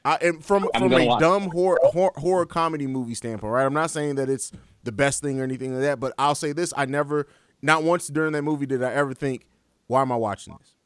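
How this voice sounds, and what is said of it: Own accent, loose enunciation. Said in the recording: “My accent. I don't enunciate all the time.”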